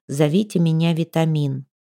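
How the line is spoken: Quiet, joyless. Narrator (Russian): Кути негромко и невесело проговорил

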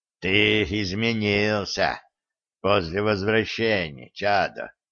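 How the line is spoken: Sighing raven. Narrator (Russian): вздохнул ворон

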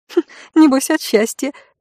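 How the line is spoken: Mischievous giggle. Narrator (Russian): хихикнула одна из кухарок, озорно

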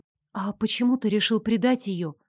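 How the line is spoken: Unsure curious question. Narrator (Russian): полюбопытствовала я, чувствуя себя очень неуверенно

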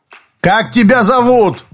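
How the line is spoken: Shouted. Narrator (Russian): крикнул он

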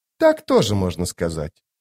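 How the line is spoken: Dry remark. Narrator (Russian): сухо заметила зависть

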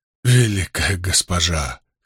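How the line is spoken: Hoarse. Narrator (Russian): хрипло вымолвил он

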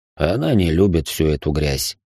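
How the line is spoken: Cold reply. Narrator (Russian): холодно ответил Рабаданов

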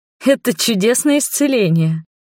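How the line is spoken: Laughing. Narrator (Russian): засмеялась

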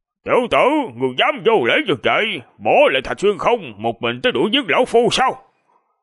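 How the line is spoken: Low, controlled shout. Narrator (Vietnamese): Chiếu Cốt Chân Nhân ổn định tâm thần, thấp giọng quát lên

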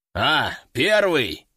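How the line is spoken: Deep bass voice. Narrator (Russian): пробасил Собутыльев

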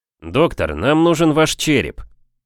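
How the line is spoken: Deep bass voice. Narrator (Russian): пробасил Фрэнк

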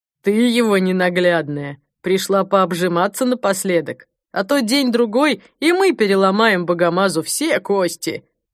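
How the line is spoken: Guard laughing loudly. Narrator (Russian): Охранник захохотал

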